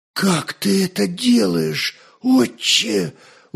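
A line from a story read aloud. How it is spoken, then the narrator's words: Amazed exhale. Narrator (Russian): выдохнул пораженный Святослав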